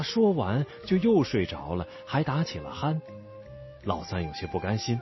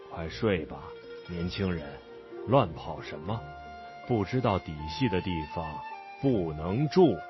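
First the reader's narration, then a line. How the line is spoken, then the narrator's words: Displeased mumble. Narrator (Chinese): 老神仙不高兴的嘟囔一句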